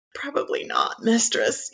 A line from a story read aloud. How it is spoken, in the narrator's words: croak, your voice hoarse with desire and fear